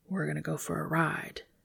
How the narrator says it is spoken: The man whispering comfortingly

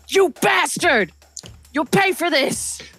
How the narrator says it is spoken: The two next to you yell

